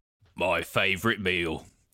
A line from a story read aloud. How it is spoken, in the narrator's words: he growled lecherously